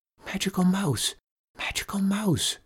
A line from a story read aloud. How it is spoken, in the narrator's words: whispered